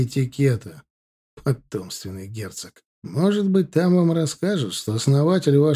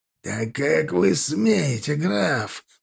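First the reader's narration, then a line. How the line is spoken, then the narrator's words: Hissed. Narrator (Russian): прошипел он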